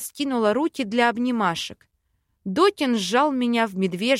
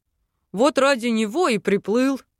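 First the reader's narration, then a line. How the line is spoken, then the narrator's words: Chuckling. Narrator (Russian): хохотнул док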